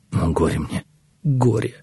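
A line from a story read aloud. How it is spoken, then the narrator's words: Anguished whisper. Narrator (Russian): прошептал Иезекия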